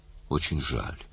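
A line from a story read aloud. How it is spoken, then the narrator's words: Plain. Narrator (Russian): сказала она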